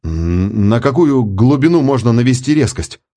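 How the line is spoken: Uncertain question. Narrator (Russian): неуверенно спросил Миссарж

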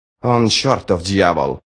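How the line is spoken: Muttering. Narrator (Russian): пробормотала Сумаэль

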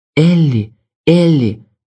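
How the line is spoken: Groaning. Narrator (Russian): я застонал

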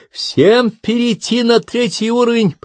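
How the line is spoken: Shout. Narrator (Russian): прокричал Фердинанд

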